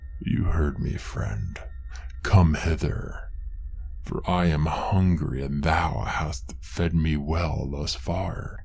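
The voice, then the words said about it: Deep raspy creature voice. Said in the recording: “a voice call in a deep, raspy tone.”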